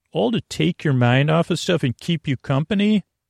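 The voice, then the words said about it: Lulling, soothing, creaky voice. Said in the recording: “I'm going to use lulling, soothing, creaky, dulcet tones. My voice is a little bit different.”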